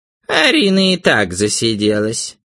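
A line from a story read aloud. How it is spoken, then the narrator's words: Creaky voice. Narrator (Russian): проскрипела Мэри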